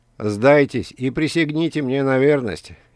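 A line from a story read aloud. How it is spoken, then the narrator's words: Snide, mocking tone. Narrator (Russian): ехидно сказал диктатор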